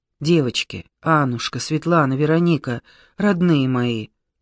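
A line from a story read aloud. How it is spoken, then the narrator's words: Painful sigh. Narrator (Russian): Таня мучительно вздохнула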